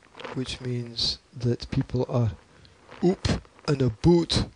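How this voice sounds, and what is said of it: Poor attempt at Scottish accent. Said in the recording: “that wasn't very good Scottish accent, was it? That was like a Welshman underwater. ... That is terrible”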